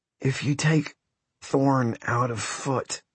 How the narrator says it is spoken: croaked Matt

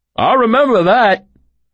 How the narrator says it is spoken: a man called out

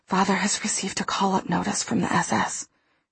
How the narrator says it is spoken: she whispered

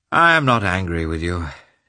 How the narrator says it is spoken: he said, just as gloomily

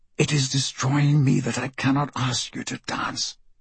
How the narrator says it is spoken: Marco whispers as she passes by him in the ballroom

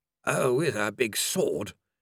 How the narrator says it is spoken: grumbled Mr

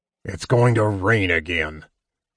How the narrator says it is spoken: Flint grumbled

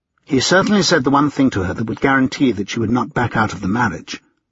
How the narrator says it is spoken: Richard said bitterly

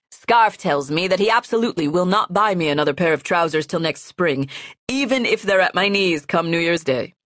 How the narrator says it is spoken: the young man says, laughing

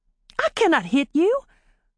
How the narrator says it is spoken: Polly exclaimed

